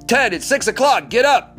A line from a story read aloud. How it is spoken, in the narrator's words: Curry bellows again